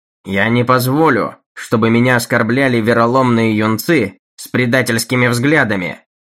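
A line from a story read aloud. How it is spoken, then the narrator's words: Loud. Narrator (Russian): громко произнес Стедлер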